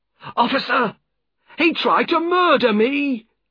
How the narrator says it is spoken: cried the other man

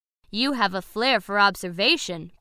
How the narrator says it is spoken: Bessie said

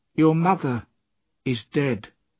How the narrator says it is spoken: she said

